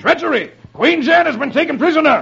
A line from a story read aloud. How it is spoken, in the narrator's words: King Agwar chuckles